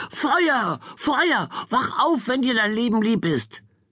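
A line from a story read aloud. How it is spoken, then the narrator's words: Shout. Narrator (German): schrie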